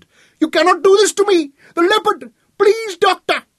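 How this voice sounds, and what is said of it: Shrill, panicked pleading voice. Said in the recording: “His voice was muted by the intervening glass, but still the raw panic was shrill in his voice”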